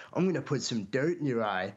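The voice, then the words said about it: Put-on American accent. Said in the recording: “That's my American accent.”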